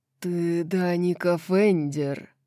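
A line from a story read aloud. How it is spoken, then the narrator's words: Man growling. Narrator (Russian): прорычал мужчина из-за стойки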